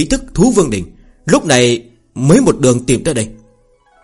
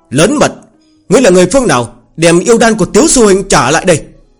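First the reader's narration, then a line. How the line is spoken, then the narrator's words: Shout. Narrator (Vietnamese): quát lên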